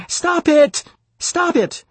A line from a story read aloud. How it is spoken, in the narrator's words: Another voice came screaming